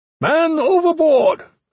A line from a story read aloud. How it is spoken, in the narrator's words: Iron Fist shouted